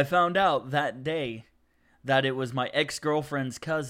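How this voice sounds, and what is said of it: Usual voice. Nothing is said of it.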